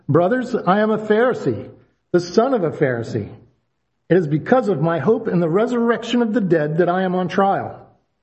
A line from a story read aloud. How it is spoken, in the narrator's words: Paul, knowing that some of them were Sadducees and others Pharisees, called out in the Sanhedrin